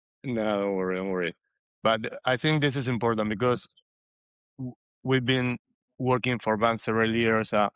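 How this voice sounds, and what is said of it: Non-native Spanish-accented English. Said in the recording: “accent, if you don't understand something about my English”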